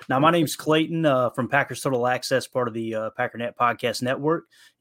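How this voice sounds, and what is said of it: Speaks with a noticeable accent. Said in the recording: “they hear my accent”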